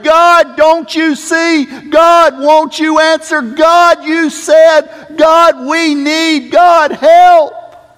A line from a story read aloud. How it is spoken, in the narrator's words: cried out and prayed